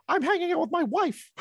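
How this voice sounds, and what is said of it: Mickey Mouse cartoon voice. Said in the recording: “I did a Mickey Mouse voice.”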